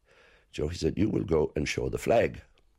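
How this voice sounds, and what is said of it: Imitated rich Kerry Irish accent. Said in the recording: “his wonderfully rich Kerry accent”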